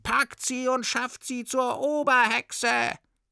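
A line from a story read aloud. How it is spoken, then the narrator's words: Shouting in chorus. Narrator (German): schrien alle Hexen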